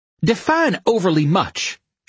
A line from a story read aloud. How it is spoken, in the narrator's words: she snapped